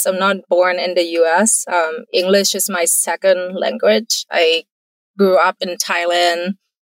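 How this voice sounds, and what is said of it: Non-native English accent. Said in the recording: “as you may be able to tell based on my accents”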